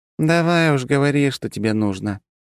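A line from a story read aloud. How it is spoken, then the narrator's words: Heavy sigh. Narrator (Russian): тяжело вздохнула полковник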